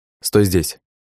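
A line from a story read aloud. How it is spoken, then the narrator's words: Plain. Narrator (Russian): сказал я радисту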